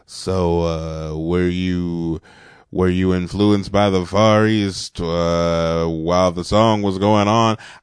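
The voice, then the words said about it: Imitates a TV host's voice. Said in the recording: “That's my Don Cornelius impression, which kind of sounds like a Billy Dee Williams impression.”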